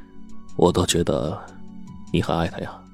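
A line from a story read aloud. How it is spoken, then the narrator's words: Stunned, low voice. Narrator (Chinese): 罗文健呆愣了半晌，然后低声说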